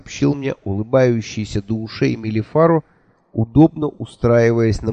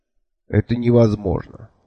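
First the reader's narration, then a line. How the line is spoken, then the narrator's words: Calm objection. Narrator (Russian): спокойно возразил я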